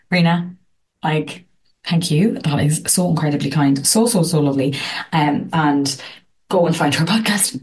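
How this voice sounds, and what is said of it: Irish accent. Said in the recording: “I love your voice, Irish accent”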